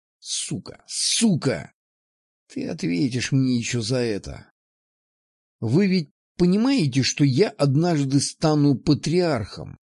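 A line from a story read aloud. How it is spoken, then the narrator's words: Strained, forced out. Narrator (Russian): выдавил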